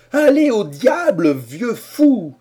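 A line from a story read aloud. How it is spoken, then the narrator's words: Exasperated shout. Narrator (French): s'écria Harrison exaspéré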